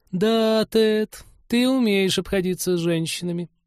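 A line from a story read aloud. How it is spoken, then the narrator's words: Stunned drawl. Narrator (Russian): потрясенно протянула Полина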